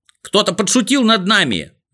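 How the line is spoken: Shout. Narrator (Russian): закричал Растеряйка

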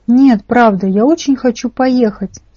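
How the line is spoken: Plain. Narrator (Russian): сказал я

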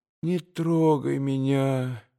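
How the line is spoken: Pleading babble. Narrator (Russian): молящим голосом прилепетала она ему

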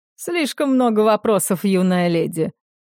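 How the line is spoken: Chuckling. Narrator (Russian): хохотнул капитан

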